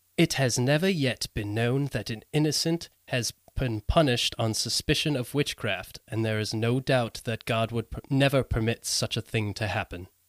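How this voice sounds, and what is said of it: Put-on British accent. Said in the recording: “I'm going to do my best British accent”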